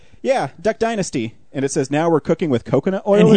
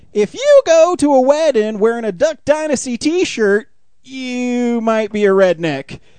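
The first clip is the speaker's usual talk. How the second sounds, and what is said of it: Imitates another person's voice. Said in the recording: “you're into Jeff Foxworthy ... I'll even do an impression.”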